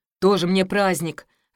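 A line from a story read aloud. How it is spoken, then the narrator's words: Disappointed grumble. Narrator (Russian): разочарованно пробурчал Димка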